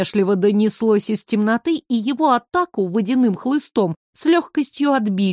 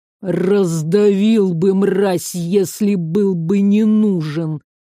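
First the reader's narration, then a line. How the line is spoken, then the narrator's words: Regretful drawl. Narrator (Russian): с сожалением протянул гость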